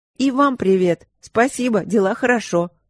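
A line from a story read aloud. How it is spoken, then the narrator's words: Tossed off in passing. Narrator (Russian): на ходу бросила я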